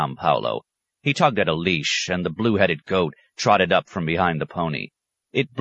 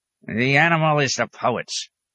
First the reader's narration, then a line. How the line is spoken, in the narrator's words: the hermit grunted